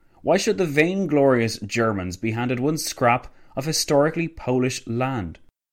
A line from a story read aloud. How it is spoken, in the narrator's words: Lloyd George sighed